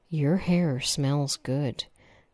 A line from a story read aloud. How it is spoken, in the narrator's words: he sighed